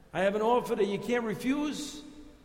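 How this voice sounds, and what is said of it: New York accent, Godfather mobster impression. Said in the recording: “I'm going to use my New York accent to its best ability here ... I'm going to twist it a little bit, because we're going to talk about the Godfather. You remember Michael Corleone?”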